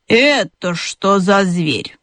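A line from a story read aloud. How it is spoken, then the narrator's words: Displeased grumbling hedgehog. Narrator (Russian): начала была ежиха, недовольно проворчала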